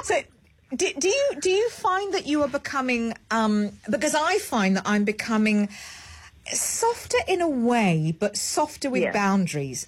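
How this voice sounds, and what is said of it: Speaks with a British accent. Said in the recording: “your accent can cover all of that. I love your accent. ... I'm about to switch over into my British accent.”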